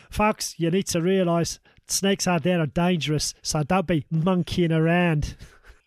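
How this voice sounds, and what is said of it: Put-on Australian accent. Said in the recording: “proper Aussie style ... I'm just trying to do this in an Australian accent.”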